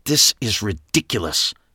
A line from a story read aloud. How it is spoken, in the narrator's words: Trish hissed